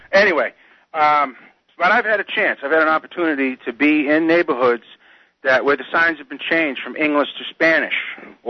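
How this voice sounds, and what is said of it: Boston accent. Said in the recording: “I used to live up there in Boston and all that, so that's why my accent doesn't fit West Virginia.”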